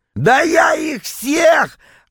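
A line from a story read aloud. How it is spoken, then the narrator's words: Yelling. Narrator (Russian): опять заорал Витек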